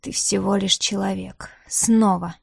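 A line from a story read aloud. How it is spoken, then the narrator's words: Whispered inner thought. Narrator (Russian): раздался шепот его собственных мыслей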